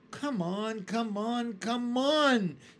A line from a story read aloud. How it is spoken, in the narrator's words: shouted the centipede